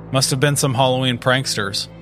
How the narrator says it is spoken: one of the officers said, his tone dismissive

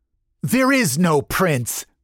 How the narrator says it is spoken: the vampire spat

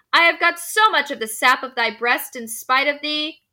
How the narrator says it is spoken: the little knave from the housetop cried in triumph

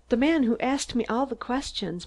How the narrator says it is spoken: Mary sobbed

